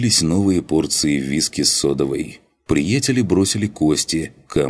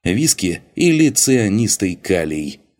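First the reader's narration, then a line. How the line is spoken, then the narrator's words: Laughing. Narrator (Russian): засмеялся Зайер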